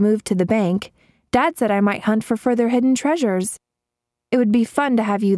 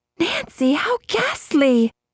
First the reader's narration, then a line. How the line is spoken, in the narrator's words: Bess exclaimed